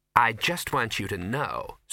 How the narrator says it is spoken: said Ginger coldly

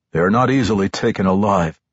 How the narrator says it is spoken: Ravel Zorlaren replied

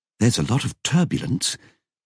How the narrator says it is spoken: muttered, concentrating

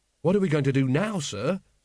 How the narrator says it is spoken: said Carrot anxiously

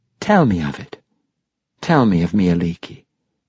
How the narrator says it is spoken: Lady Avalier purred

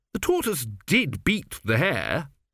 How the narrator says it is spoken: said Zeno, sulkily

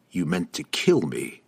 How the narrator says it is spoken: Drizzt replied coldly

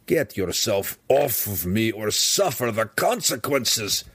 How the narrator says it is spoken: the deep gnome growled, obviously an empty threat

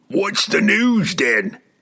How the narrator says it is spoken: demanded impatiently

